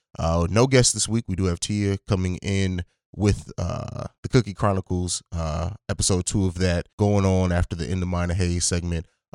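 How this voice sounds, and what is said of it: Voice still sounds sick. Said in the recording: “I've been getting over a sickness ... you probably still hear it in my voice a little bit”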